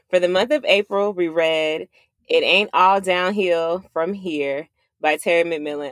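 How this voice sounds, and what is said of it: Country-sounding accent. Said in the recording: “I sound so country.”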